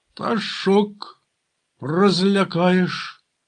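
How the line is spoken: Calm remark, young man. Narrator (Ukrainian): спокійно зауважив молодик

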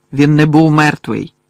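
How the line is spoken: Angry objection. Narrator (Ukrainian): сердито заперечив Гаррі

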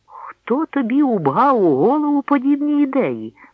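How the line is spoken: Exclaimed. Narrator (Ukrainian): вигукнув

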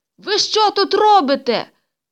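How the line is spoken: Young man shouting. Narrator (Ukrainian): закричав молодий льотчик

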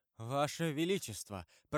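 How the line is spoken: Timid babbling. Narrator (Russian): пролепетал барон

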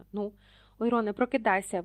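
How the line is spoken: Exclaimed. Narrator (Ukrainian): вигукнула Герміона

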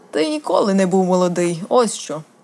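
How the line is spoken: Grumble. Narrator (Ukrainian): буркнув Роберт

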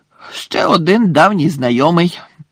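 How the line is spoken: Growled. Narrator (Ukrainian): прогарчав Муді

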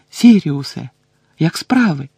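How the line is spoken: Exclamation. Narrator (Ukrainian): вигукнув

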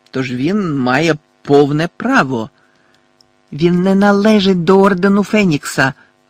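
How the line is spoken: Exclamation. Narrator (Ukrainian): вигукнула місіс Візлі

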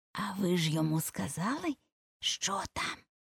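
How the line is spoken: Hoarse, mysterious whisper. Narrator (Ukrainian): закінчила вона хрипким таємничим шепотом

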